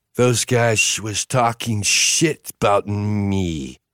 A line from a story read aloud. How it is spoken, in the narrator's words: Vince slurred